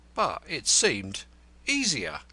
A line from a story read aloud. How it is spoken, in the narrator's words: faltered Crowl